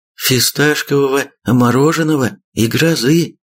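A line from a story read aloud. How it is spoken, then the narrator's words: Joyful sister. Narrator (Russian): радостно ответила сестрица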